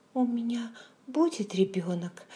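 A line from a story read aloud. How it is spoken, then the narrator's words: Frightened blurt. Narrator (Russian): выпалила она испуганно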